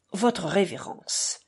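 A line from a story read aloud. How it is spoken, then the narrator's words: Sudden pathetic exclamation. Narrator (French): s'exclama-t-il soudain d'un ton pathétique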